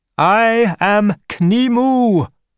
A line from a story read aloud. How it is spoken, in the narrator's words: cried the god